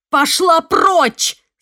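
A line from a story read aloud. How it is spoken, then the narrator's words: Shouting. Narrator (Russian): закричала я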